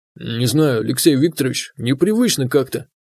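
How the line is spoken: Muttered. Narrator (Russian): пробормотал он

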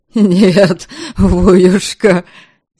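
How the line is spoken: Relieved laughing yell. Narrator (Russian): Смеясь от облегчения, завопил Ваята, поняв, что воевода заподозрил его вовсе не в том, в чем он был действительно виноват

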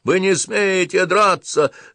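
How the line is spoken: Whining soldier. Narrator (Russian): заскулил солдатчик

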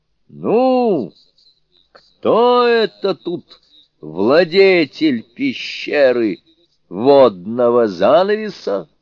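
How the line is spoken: Loud demon's challenge. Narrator (Russian): Демон громко крикнул

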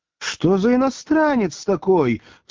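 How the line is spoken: Loud, flustered woman exclaiming. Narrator (Russian): в смятении воскликнула Маргарита так громко, что на нее обернулись проходившие мимо скамейки

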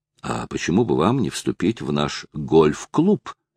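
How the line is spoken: Plain. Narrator (Russian): спросил Билл Рохан

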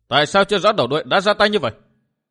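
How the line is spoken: Loud angry shout. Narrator (Vietnamese): Vu Tư Minh quát to giận dữ

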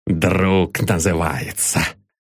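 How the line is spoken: Muttered under breath. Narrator (Russian): пробормотал он, чтобы Ивлев не разобрал

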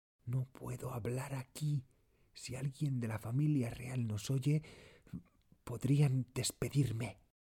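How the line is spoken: Murmured after deep breath. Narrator (Spanish): respira hondo y murmura

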